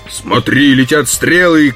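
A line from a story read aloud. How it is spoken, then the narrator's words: Shouting. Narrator (Russian): крикнул он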